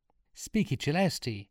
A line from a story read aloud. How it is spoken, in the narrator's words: cried Sean